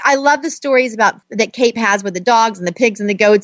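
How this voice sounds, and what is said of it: Southern American accent. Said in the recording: “I hear my Southern accent coming out”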